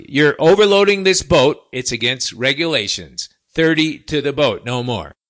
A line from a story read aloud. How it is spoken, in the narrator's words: I said, really, quite loudly